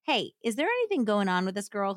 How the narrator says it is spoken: asked

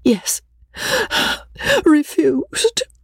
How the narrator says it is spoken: Rebecca answered tearfully

